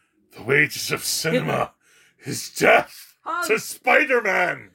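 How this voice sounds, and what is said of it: Kingpin impression. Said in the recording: “can you do it in your Kingpin voice?”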